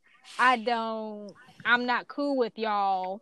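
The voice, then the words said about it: Imitated accent of a woman. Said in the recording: “that's her accent.”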